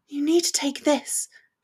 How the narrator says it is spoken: she whispered

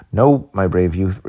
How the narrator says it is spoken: replied the chief

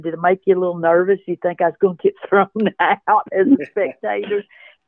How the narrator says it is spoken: he was kind of chuckling at me

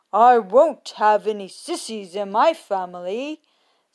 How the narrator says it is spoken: said Father Duck sternly

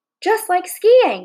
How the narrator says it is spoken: yelled

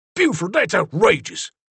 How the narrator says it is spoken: Zeke said hotly

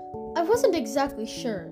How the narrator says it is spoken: exclaimed Miss Mush

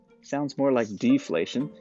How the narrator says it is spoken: Bit grumbled under his breath

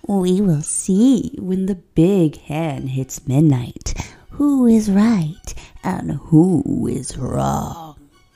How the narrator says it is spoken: smiled widely, then said in a creepy voice

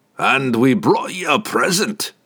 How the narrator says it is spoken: Brunner chuckled

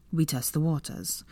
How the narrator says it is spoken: Draco said gruffly

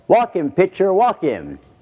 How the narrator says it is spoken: he would yell

